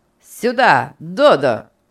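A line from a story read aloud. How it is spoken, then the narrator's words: Commanding shout. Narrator (Russian): повелительно крикнул Энрик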